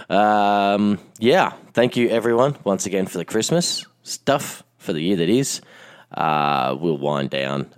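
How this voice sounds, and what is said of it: Hoarse, lost voice. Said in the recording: “hopefully by next time I'll have my voice back. Or maybe this is just going to be my permanent radio voice”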